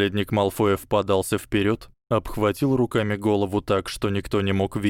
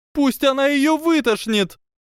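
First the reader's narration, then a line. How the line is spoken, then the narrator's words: Shrieking yell. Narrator (Russian): завопила Панси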